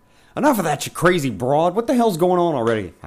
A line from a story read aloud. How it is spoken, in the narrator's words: barked